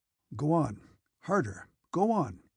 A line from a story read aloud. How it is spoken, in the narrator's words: he muttered, grunting